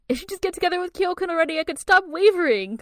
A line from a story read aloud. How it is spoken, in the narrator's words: Kakura shouts